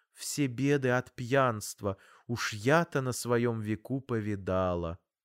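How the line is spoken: Gentle scolding. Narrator (Russian): мягко журила

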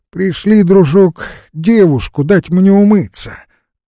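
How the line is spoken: Loud exclamation. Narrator (Russian): воскликнул громко

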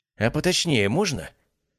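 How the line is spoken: Irritated question. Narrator (Russian): несколько раздраженно спросил солдат

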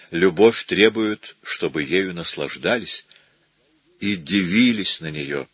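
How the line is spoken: Quiet. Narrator (Russian): тихо сказал

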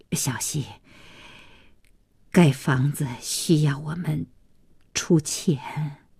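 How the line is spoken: Resolute, blunt. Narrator (Chinese): 咬了咬牙，一不做二不休，直奔主题

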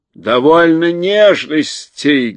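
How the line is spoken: Rude shout. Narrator (Russian): грубо закричал Урфин-Джуз

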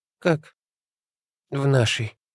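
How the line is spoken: Weak exhaled words. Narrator (Russian): Наконец выдохнула обмякшая на полу Алла Егоровна

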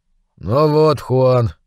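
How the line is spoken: Sigh. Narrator (Russian): вздохнул

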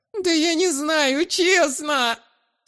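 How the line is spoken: Pitiful whining child. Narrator (Russian): Снова жалостливо захныкал шкет

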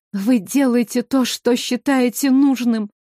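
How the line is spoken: Tearful plea. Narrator (Russian): Сквозь слезы попросила Ассара

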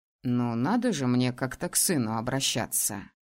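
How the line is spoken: Snorted. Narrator (Russian): Фыркнул он

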